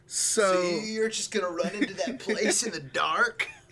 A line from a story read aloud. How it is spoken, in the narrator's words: He laughed